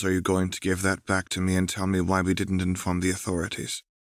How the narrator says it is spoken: Rose said this stiffly

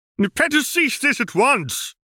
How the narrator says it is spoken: he bellowed

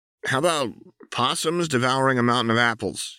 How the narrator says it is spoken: he blurted

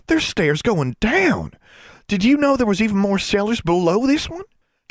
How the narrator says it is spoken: she said excitedly

